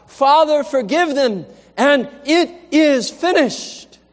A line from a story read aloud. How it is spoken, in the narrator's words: Jesus cried out from the cross